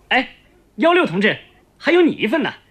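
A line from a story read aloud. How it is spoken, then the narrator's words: Calling out. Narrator (Chinese): 记账的士兵又喊了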